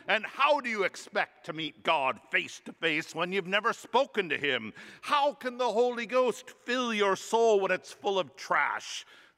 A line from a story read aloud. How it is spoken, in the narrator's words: The priest roared